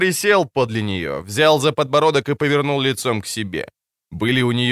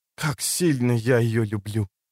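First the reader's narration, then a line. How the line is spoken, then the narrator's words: Whispered. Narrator (Russian): Прошептала она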